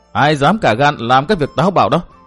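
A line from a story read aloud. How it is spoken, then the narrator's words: Cold snort, young woman. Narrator (Vietnamese): Thiếu nữ hừ một tiếng lạnh lùng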